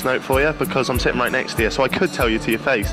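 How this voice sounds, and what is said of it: Speaks with a strong accent. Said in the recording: “You probably can tell from the awful accent.”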